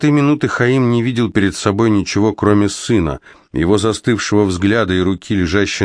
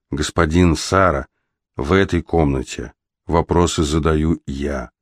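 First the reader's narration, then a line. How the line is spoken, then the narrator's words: Quiet reply. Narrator (Russian): тихо ответил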